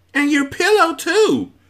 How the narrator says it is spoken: screeched the other

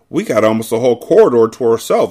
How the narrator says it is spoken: exclaimed Claudia

